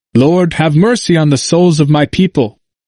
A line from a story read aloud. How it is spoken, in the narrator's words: As he fell, he exclaimed